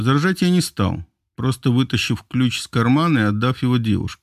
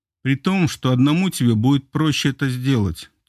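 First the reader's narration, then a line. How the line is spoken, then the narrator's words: Heavy sigh. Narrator (Russian): тяжело вздохнула Марго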